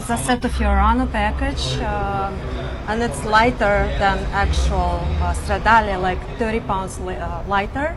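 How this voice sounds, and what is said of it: Non-native accented English. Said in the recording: “you've got an accent too... Doesn't sound like Alabama or Georgia”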